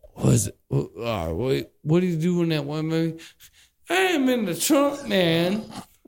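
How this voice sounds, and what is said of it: Impression of T.I. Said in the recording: “impression of T.I. as a comedian”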